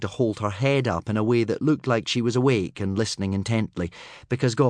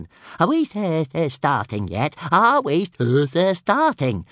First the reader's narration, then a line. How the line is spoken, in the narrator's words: chirped Toothless